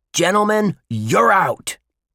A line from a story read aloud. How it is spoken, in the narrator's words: yelled Pete Unkenholtz, the umpire at home plate